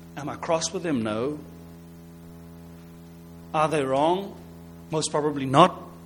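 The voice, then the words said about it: Non-native English accent. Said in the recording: “my English is not so good. I've got the wrong accent.”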